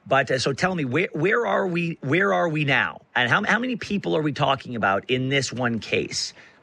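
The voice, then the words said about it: Slightly raspy voice. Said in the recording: “I apologize for my voice. It's a little raspy today.”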